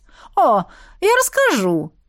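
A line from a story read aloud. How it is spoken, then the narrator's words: Cheerful assurance. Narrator (Russian): весело заверила Гризелла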